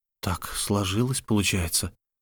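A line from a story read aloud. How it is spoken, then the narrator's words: Whispered. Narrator (Russian): прошептал Лук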